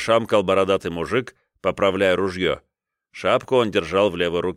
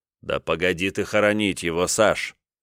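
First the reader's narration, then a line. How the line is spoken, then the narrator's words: Ringing voice. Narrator (Russian): звонким голосом сказал Илья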